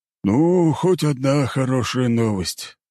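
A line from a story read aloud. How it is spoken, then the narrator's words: Relieved exhale. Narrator (Russian): выдохнул бургомистр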